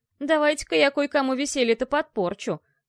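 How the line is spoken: Disapproving old man's grumble. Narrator (Russian): неодобрительно проворчал старый поморец

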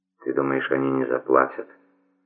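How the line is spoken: Very quiet, embarrassed question. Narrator (Russian): спросил, на этот раз необычайно тихо и очень смущенно

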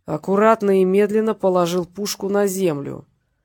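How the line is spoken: Growled. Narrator (Russian): прорычал Петренко

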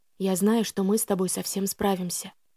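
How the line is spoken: Intimate close whisper. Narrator (Russian): прошептал он мне в волосы

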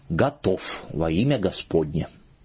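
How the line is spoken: Solemn, dignified. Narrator (Russian): чинно и торжественно

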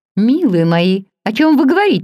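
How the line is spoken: Exclaimed. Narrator (Russian): воскликнула леди Лин

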